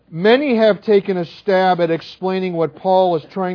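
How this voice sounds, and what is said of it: Usual voice. Nothing is said of it.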